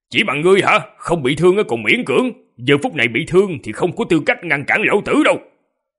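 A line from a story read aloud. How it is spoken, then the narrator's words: Impatient loud shout. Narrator (Vietnamese): vẻ mặt tràn ngập không kiên nhẫn, quát lớn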